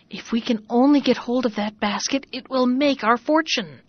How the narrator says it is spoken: they found time to whisper to each other

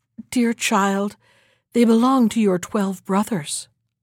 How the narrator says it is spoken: the queen answered sadly

